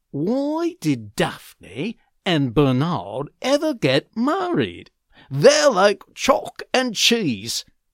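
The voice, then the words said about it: Put-on British English accent. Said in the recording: “I can't really do those accents very well, so here's my example in British English”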